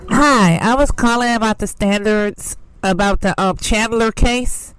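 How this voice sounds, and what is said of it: Very bad fake disguised voice. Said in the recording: “Someone puts on a very awful fake voice”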